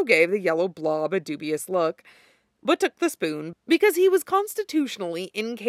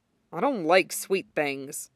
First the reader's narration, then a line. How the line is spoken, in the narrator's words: he grumbled